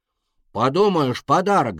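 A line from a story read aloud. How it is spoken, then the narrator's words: Little dragon shouting. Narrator (Russian): закричал дракончик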